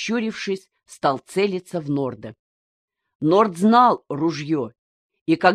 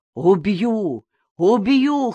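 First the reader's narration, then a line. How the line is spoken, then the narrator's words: Hoarse wheezing. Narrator (Russian): хрипел он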